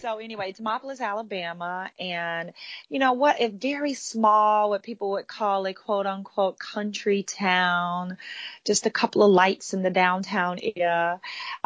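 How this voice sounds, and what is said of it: Southern American accent from Alabama. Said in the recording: “you will definitely hear my accent. I don't try to hide it at all, but people go, where are you from?”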